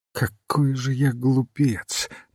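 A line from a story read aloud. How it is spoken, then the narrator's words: Muttering. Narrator (Russian): бормотал он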